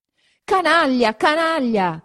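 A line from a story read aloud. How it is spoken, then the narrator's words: Continued shouting. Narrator (Italian): continuava a gridare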